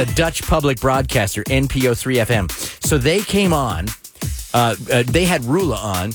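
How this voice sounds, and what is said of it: Usual voice. Nothing is said of it.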